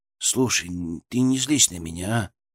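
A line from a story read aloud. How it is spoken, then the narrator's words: Hesitant, pleading. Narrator (Russian): сказал как-то неуверенно, даже просяще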